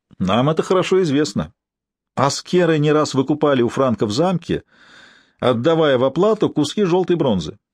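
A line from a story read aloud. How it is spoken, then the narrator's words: Ambassador replying after laughter. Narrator (Russian): Посол захохотал отсмеявшись ответил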